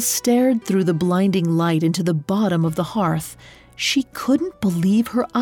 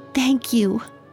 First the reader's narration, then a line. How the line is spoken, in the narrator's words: Elle whispered as she broke down into joyful sobs